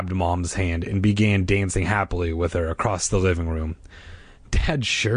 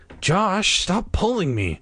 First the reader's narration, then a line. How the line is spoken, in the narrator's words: Dad snapped impatiently